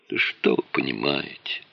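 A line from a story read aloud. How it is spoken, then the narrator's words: Sighing. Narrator (Russian): вздохнул Пискунов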